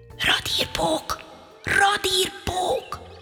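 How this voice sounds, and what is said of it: Whispered call. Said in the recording (Hungarian): “belesuttogott a lyukba”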